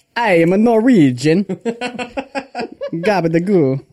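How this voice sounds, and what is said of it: Bad put-on Russian-like accent. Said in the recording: “that was like a bad Russian accent ... I'm good at accents”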